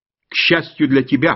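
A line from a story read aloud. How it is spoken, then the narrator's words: Snapping. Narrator (Russian): огрызнулся я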